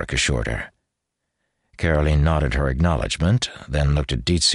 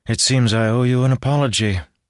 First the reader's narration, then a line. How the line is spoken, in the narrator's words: sighed